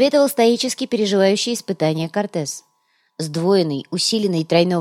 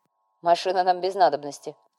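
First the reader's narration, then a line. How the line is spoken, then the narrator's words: Snorting, wry. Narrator (Russian): хмыкнул Артега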